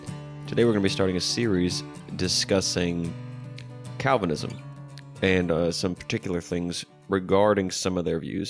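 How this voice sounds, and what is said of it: Raspy, deeper voice from a cold. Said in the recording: “if my voice sounds a little raspy or deeper, less clear than usual, because I am sick with a cold right now ... a few sniffles”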